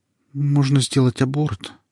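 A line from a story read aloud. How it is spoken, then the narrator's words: Uncertain statement. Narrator (Russian): сказала так неуверенно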